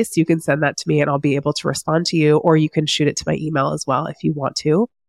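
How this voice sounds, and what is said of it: Sick-sounding voice. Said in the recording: “From one very sick, as you can hear in my voice”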